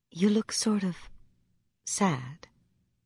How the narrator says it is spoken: She said gently

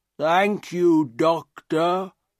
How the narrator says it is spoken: he said, in his strange, slow voice

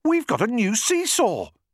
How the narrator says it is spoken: cried

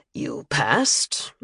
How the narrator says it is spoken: Lombardi replied dryly

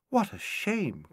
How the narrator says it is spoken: cried Anne

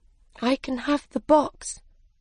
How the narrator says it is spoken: said sadly

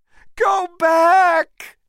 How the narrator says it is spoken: she shouted to him

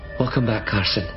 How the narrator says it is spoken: she said softly

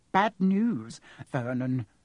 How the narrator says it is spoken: she said

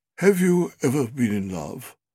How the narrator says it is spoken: said in a low, musical voice

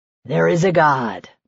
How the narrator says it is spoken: Micah breathed

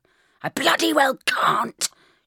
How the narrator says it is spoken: shrieked, tugging at the car bonnet

